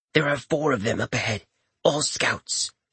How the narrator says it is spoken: the sprite said softly

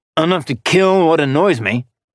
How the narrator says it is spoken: Orion raked him with a sneer

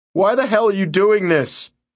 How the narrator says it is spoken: Billy cried

